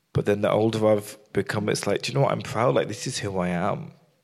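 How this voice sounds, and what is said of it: Birmingham English accent. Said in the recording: “All my friends, if I'm here, I've got the accent ... the Birmingham accent is quite endearing”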